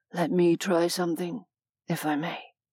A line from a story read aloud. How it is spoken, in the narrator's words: a man asked in a low whisper